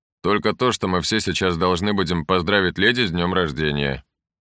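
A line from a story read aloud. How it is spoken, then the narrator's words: Plain. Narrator (Russian): сказал Гесс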